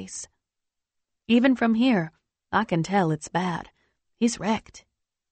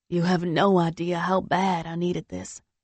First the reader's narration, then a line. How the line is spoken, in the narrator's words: he says